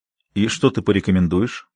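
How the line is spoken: Calm question. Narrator (Russian): спокойным голосом спросил Ренни

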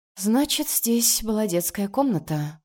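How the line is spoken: Hoarse laugh. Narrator (Russian): хрипло смеется

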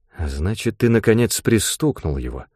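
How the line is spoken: Quiet. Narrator (Russian): тихо произнес он

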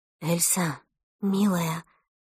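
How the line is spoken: Whisper. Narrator (Russian): прошептала Эльсина мама

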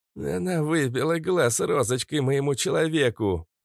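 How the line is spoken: Hoarse rasp. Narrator (Russian): Прохрипел

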